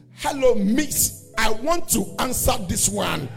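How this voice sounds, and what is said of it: Heavy African accent. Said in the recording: “they bring him from Africa ... So the accent is heavy. It's heavy.”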